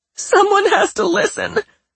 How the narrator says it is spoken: Patricia sobbed again

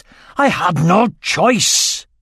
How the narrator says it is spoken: snarled Murtagh

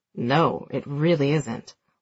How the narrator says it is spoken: Will mumbles into his wine glass

